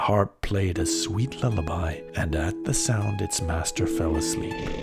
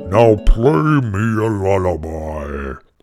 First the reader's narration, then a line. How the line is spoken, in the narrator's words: roared the giant